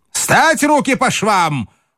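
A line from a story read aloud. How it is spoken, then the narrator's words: Shouted. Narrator (Russian): крикнул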